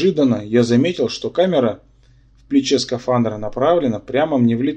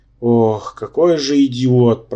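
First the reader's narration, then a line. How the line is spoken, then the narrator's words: Groaned. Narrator (Russian): простонал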